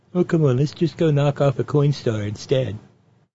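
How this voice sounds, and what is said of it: Imitates another person's voice. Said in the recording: “it sounds a lot like Trump. Because my cheesy Trump impression is a mixture of Carl the assistant greenskeeper ... Bubbles from Trailer Park Boys ... you can hear Trump saying it”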